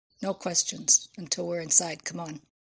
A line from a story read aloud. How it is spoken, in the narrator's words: he said quietly